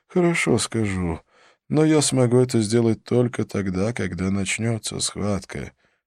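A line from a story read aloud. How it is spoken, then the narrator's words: Sad. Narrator (Russian): печально ответил Халет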